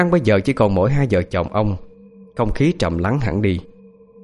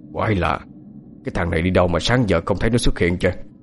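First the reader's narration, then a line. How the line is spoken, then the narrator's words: Muttering. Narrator (Vietnamese): Ông Cảnh lẩm bẩm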